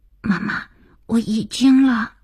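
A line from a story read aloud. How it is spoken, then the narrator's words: Hurried frightened child's whisper. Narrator (Chinese): 儿子急促惶恐的小声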